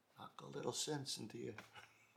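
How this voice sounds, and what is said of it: Put-on Italian accent. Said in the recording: “as any good Italian dad would say ... the accent, but it makes for better audio”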